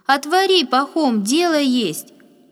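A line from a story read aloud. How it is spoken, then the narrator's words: Loud woman calling. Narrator (Russian): громко отозвалась женщина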